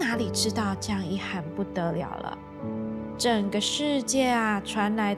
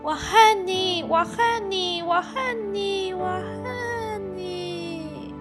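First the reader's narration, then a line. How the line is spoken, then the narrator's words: Child crying. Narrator (Chinese): 孩子哭着告诉妈妈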